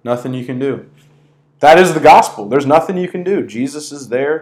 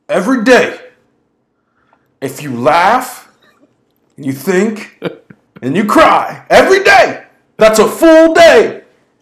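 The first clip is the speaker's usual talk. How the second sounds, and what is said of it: Imitates another person's voice. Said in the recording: “How's my Jimmy V impersonation? ... It wasn't great.”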